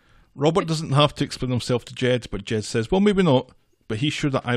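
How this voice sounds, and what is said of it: Usual voice. Nothing is said of it.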